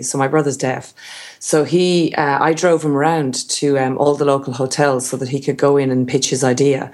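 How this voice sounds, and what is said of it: Irish accent. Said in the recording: “I did mention your accent. ... I'm Irish”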